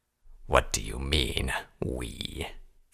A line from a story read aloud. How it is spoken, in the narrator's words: Vanguard asked, his voice low and dangerous